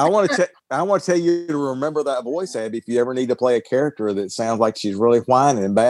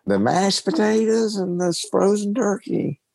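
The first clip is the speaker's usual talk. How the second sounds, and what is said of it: Whiny voice with southern twang. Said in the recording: “You got a pretty good twang, southern twang there.”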